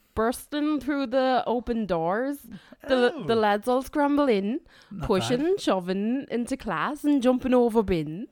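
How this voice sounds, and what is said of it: Put-on Northern Irish accent, drifting Liverpool. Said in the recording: “Broad, I suppose. We won't give any specific cities. Northern Irish accent, please ... Fucking Northern Irish way of Liverpool towards the end there.”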